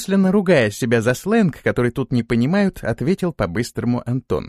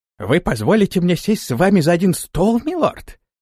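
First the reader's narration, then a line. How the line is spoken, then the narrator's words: Astonished exclamation. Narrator (Russian): в великом удивлении воскликнул слуга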